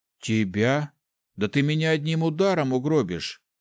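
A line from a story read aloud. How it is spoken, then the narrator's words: Displeased grumble. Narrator (Russian): недовольно проворчал Ари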